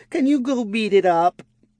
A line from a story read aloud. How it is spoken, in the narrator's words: Aurevi yelped, startled by the sudden slime girl flopped across her lap